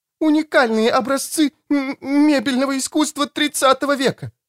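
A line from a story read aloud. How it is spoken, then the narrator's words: Wailing, bursting into sobs. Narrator (Russian): возопила мисс Плим и разрыдалась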